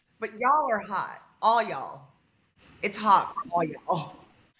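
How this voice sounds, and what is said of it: Texan dialect. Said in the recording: “Well, y'all are a Texan... Give me your dialect.”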